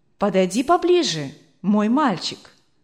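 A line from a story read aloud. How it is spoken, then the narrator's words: Tender, affectionate. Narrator (Russian): сказал хозяин дома ласково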